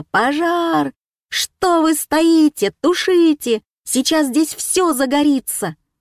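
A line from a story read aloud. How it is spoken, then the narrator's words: Wild scream. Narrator (Russian): Я дико закричала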